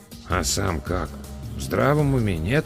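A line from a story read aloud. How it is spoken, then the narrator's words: Quiet mutter in ear. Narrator (Russian): тихонько пробурчал мне на ухо Эдвин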